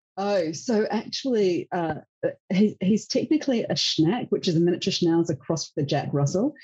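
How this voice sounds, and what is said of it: Australian accent. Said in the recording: “It's always great to have an Australian accent.”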